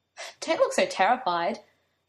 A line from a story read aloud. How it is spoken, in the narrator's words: Merlin told him with a laugh